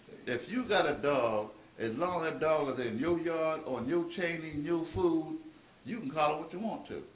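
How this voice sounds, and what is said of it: Slight Southern American accent. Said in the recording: “I got a little southern accent”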